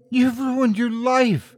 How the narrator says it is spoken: Adeline sobbed when she saw the stitches embedded within her beautiful daughter's forehead

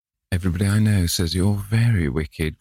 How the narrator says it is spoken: cried the old lady

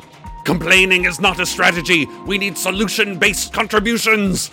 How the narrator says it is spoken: Hiram's Greenhead snarled

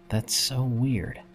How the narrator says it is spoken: I muttered under my breath

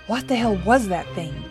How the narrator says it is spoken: Eli demanded, his voice shaking

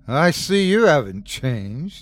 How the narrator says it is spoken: Andrew said, laughing

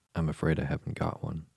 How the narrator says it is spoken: Alice said in a frightened tone

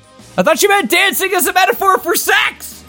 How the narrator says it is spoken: He shouted

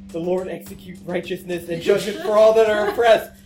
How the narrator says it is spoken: I mutter and I whisper under my breath

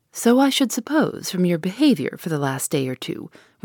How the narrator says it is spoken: returned the other coolly

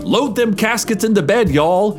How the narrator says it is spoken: he shouted

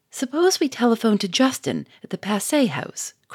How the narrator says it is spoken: cried Victor

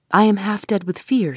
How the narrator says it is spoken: she said

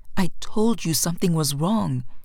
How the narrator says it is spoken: Iman said through gritted teeth

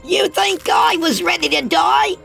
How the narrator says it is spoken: Oscar screeched in his young, high-pitched voice

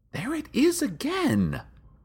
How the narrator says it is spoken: she whispered to a confused crowd

